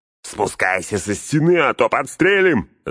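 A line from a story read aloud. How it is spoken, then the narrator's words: Shouted reply. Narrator (Russian): заорали в ответ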